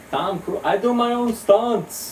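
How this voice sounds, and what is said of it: Stereotypical Italian accent impression. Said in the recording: “my favorite impression that I do. This classic stereotypical Italian as Tom Cruise.”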